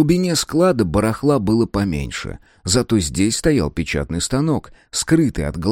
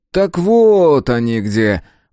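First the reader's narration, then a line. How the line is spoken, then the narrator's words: Drawling, strangely trembling. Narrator (Russian): протянул маркиз, голос его странно дрожал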